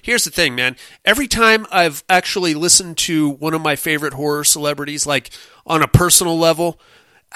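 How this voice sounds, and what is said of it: Mad scientist character voice. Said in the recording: “in my best mad scientist voice”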